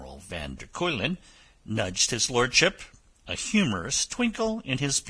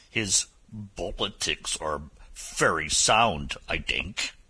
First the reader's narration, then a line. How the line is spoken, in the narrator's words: he growled